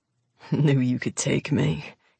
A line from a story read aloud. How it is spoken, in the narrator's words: he mutters